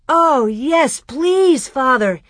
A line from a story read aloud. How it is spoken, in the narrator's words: Almanzo almost shouted